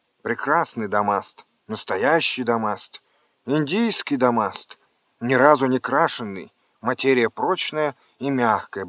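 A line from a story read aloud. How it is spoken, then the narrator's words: Habitual praising mutter. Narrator (Russian): бормотал он, привычно выхваляя свой товар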